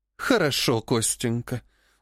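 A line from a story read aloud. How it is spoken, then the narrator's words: Weary speech. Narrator (Russian): устало сказала Живетьева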